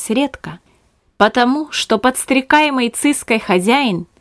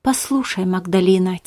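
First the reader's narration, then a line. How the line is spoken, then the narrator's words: Quiet. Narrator (Russian): тихо сказал Беппа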